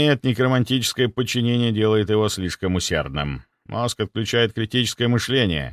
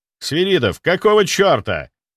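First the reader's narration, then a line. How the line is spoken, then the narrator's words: Barked. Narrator (Russian): рявкнул я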